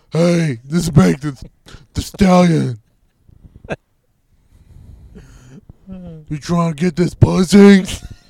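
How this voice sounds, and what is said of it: Imitates another person's voice. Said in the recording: “I'm doing her voice too.”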